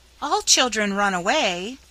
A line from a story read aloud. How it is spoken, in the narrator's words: pleaded Nan, as if it was as natural and necessary a thing as measles or whooping cough